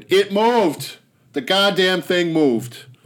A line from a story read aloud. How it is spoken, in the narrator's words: George shouted